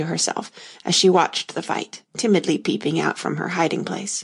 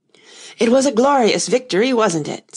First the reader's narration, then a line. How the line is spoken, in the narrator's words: said the white knight, panting